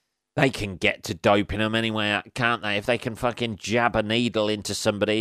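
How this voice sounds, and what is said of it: Usual voice. Nothing is said of it.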